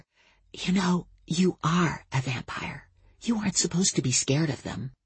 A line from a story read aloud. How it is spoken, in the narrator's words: I said in a stage whisper